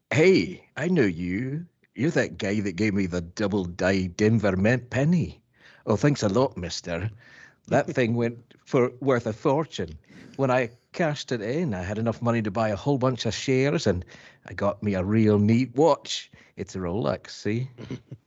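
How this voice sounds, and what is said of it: Put-on angry Scottish accent. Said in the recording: “And I have Scottish ... the easiest accent for you ... Angry to... Scottish ... angry make Scotsman sure you do it the angry Scotsman ... Scottish is round, right? It's round ... That was really good”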